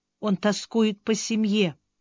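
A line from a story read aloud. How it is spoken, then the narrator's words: Quiet reply. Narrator (Russian): тихо откликнулась Бриана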